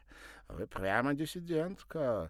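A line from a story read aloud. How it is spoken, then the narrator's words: Laughing. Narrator (Russian): засмеялся Николя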